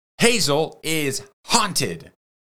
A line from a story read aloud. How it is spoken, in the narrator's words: DJ shouted